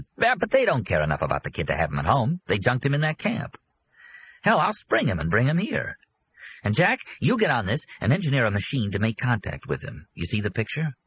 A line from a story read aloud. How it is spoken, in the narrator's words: excitedly, Arnie said